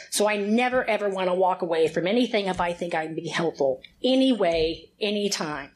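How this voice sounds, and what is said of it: Slight Texan Southern twang. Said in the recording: “Any of y'all caught on to a little twang? It ain't Oregon. I am born and raised in Houston, Texas”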